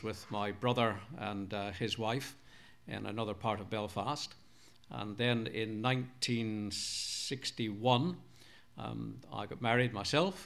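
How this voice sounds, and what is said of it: Mixed Northern Irish, Scottish, English accent. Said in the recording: “my accent is a bit sort of mixed up. It's basically Northern Ireland ... sprinkled with a bit of Scots and overlaid perhaps with a bit of English accent as well”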